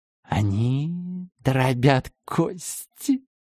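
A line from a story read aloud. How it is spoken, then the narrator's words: Excited whisper. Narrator (Russian): возбуждаясь, прошептала швец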